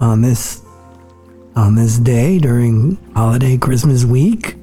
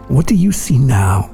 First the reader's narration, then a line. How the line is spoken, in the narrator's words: he asked